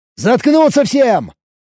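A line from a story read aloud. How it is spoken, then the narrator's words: Shouted. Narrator (Russian): крикнул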